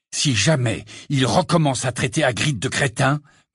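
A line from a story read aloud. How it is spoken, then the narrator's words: Growled. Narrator (French): gronda Harry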